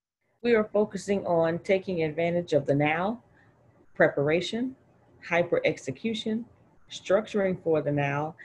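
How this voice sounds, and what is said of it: Reading aloud in a teacher voice. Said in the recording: “use your teacher voice and read this here”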